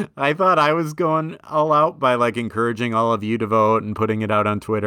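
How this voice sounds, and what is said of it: Usual voice. Nothing is said of it.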